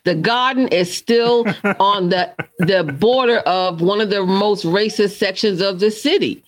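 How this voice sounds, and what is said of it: Boston accent. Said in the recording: “now you can hear my accent come out”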